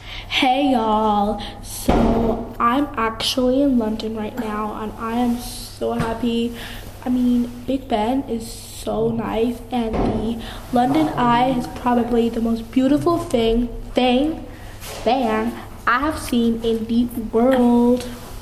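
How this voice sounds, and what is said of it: Good put-on American accent. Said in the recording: “you have to do a American accent ... That was a good accent.”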